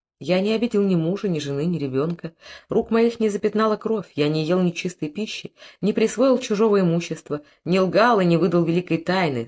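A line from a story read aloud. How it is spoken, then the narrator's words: Calm reply. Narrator (Russian): спокойно ответил Харанец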